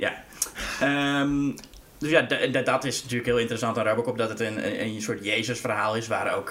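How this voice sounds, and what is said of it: Usual voice. Nothing is said of it.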